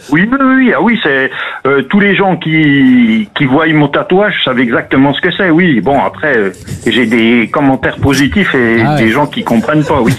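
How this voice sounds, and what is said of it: Regional French accent from Doubs. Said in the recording (French): “l'accent magnifique ... l'accent du Jura ... L'accent doubiste ... On a un accent qui se reconnaît facilement ... légèrement ... Franchement, discret”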